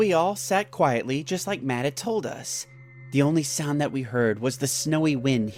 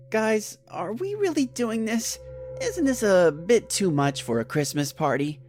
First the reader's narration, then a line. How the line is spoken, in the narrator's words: I said in a hesitant voice